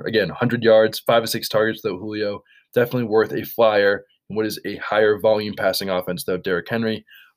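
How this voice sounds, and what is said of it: Hoarse, strained voice from a cough. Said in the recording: “I'm losing my voice because I have a cough”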